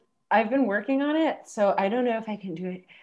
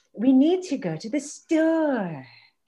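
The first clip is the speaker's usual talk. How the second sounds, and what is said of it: Moira Rose impression. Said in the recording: “It's Moira Rose from Schitt's Creek. I don't think I'm good at it... we talk to each other like this, like as if we're Moira”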